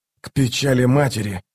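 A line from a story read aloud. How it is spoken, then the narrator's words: Wheezing between blows. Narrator (Russian): хрипел он между ударами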